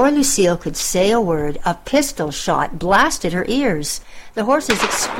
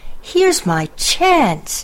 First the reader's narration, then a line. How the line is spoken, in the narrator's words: she cried